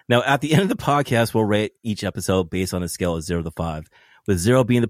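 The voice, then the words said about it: Cold-affected, deep smooth voice. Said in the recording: “I apologize for my voice. I'm trying to recover from a fucking cold ... I think you sound a little smooth jazz”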